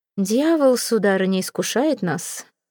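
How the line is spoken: Bored voice. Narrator (Russian): скучным голосом заметил Сезар

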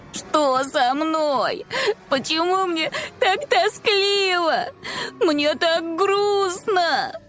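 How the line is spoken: Whining, sniffling and sobbing. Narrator (Russian): Заныли они, хлюпая носом и всхлипывая

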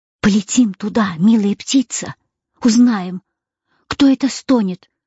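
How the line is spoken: Excited whisper. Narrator (Russian): взволнованно прошептала Галя

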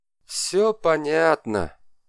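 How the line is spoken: Tired. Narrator (Russian): устало заметил Габриэль

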